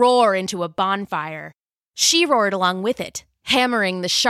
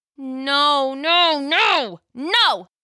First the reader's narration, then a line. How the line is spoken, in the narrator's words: Jill cried as the mutant drove her again into the metal panel